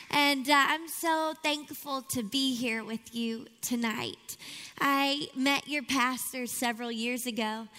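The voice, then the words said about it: Louisiana accent. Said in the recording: “you can tell by the accent that I carry that I'm not from Miami originally... Shreveport, Louisiana is my hometown”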